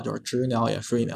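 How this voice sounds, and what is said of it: Mock accented singing. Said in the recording (Chinese): “他有口音，你知道吗？我们天天拿他在开玩笑”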